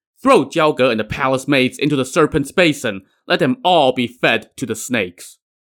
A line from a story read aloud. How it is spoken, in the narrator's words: He angrily decreed